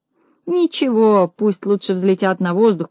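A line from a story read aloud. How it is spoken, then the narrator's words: Grumbling in another's voice. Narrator (Russian): проворчала другая голова голосом Спруца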